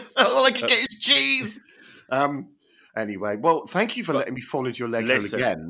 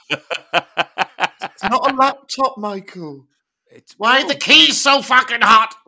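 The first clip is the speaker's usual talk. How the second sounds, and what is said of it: Imitates another person's voice. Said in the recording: “That was my impression of you.”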